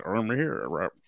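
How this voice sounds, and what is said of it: Poor imitation of another person's voice. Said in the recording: “a bit like Sean Connery ... Terrible impression.”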